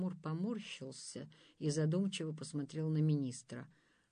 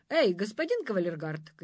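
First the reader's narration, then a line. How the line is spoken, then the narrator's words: Shouting. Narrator (Russian): крикнул он кавалеру Мухомору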